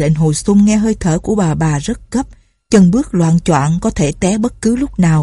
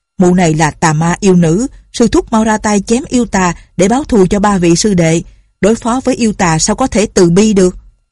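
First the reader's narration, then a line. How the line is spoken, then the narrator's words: Angry. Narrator (Vietnamese): Tân quốc Lương tức giận nói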